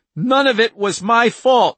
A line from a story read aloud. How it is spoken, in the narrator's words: she screamed at the woman with the broken arm